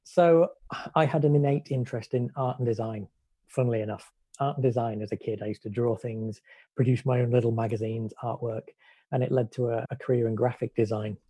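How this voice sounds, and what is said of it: British (UK) accent. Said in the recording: “I hail from the UK, as you'll be able to tell from the accent.”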